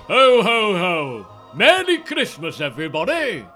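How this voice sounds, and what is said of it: Weird posh Father Christmas voice. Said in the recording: “That's my Father Christmas voice ... he becomes more southern than your accent ... he's just a kind of a strange accent ... Posh. He's not southern, he's posh ... It's like a weird posh voice”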